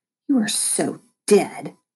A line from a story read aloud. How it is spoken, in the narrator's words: Lexi spat